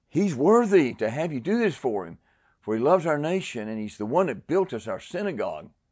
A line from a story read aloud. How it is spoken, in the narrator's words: they pleaded with him earnestly, saying